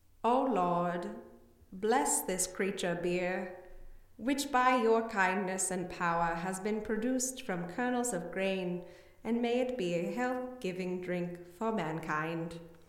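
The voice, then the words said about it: Solemn pious monk voice. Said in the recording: “That accent was... It was my character. I was a monk. ... That was a monk accent? You sounded like you're about to, like, introduce a nightmare theater in, like, the 20s. ... That was a pious library monk. ... that definitely sounds like you're about to describe an eldritch horror to me.”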